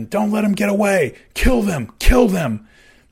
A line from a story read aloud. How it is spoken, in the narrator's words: Callie screamed at his man